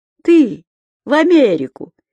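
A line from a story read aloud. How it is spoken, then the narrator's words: Almost laughing. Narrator (Russian): едва не рассмеялся Анатолий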